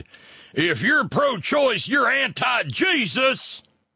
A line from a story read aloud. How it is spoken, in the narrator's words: he turned his caps lock on and screamed